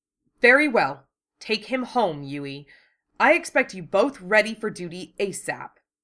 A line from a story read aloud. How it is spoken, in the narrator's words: Her eyes became cold and hard, and her voice was harsh as she snapped